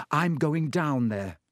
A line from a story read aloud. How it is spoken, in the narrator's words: he said